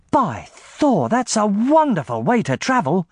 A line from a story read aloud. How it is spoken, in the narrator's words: she exclaimed